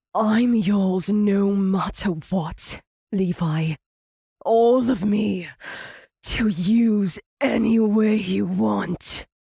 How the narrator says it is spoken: she promised in a husky tone

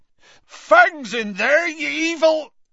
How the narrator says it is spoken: Hagrid bellowed

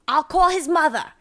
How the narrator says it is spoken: she shouted after Treat

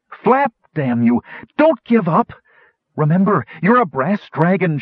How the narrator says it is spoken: cried

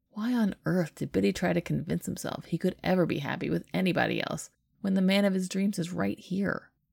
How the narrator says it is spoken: Jack chuckles

